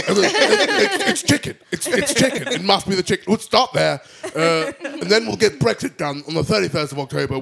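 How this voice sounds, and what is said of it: Imitates another person's voice. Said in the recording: “That was a very good Boris impression.”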